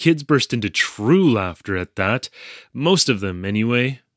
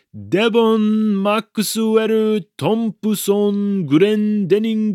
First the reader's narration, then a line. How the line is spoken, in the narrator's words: At the top of my lungs, I called out